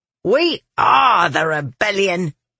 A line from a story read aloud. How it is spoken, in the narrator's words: she growled